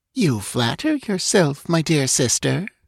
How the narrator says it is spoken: purred Salome

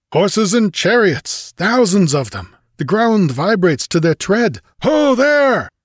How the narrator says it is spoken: His voice thundered out across the valley

